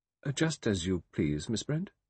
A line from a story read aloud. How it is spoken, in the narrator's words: He said stiffly